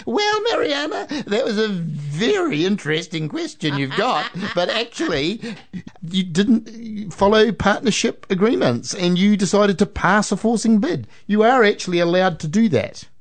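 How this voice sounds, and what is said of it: Imitates another person's voice. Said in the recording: “my Judge Judy impersonation.”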